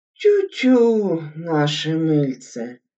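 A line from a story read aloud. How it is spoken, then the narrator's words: Muffled sigh from below. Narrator (Russian): вздохнул из-под стола Хабанеев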